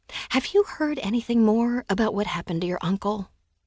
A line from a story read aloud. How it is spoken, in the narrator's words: I lowered my voice to a whisper